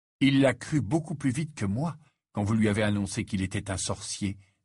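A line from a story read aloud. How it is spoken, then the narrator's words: Plain. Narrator (French): dit Harry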